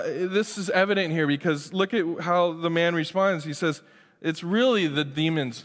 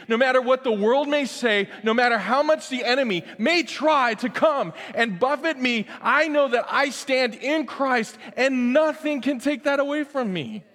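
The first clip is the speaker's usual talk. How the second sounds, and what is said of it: Yelling. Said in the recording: “I'm sorry, I'm yelling.”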